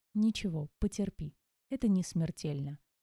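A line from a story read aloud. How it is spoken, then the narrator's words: Gentle healer. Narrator (Russian): мягко произнес лекарь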